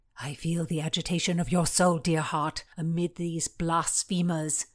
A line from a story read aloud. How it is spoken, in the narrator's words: whispered